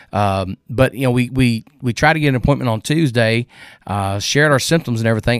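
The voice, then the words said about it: Draggy, deep, congested sick voice. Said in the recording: “You can probably still hear it in my voice. It's still a little draggy. It's still a little bassy in a sense. ... Fevers, headaches, congestion.”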